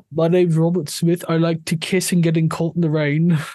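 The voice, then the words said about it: Badly done put-on accent imitating someone. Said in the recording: “That accent was atrocious. ... Yes, it was, because I'm terrible at all accents”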